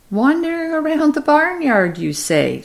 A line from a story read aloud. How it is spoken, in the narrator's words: she said teasingly